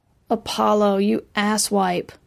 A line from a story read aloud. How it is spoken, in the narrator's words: She groaned